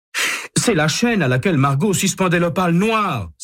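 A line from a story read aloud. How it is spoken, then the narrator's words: Exclaiming. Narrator (French): s'écrie-t-il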